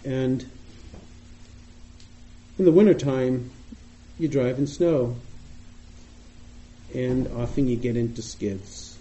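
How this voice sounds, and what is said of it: Boston accent. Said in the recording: “You may hear from my voice, I sound like I'm from Boston, and I am.”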